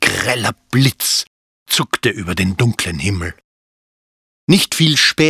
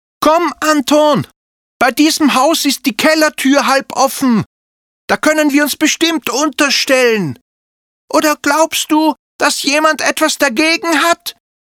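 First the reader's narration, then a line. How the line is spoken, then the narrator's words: Shouting over thunder. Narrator (German): schrie Zilli, damit sie den zweiten Donner übertönte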